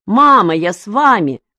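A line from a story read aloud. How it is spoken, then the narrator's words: Boy shouting. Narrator (Russian): закричал мальчик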